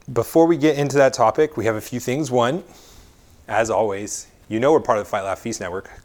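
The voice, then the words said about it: Slightly raspy voice. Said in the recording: “my voice is a little raspy, it's because I've been talking all day”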